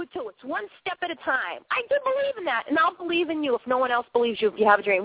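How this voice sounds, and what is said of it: Boston accent. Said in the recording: “the girl with the funny accent, originally from Boston, Massachusetts”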